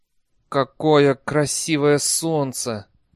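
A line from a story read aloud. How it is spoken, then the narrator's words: Strained, forced out. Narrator (Russian): выдавил Бейли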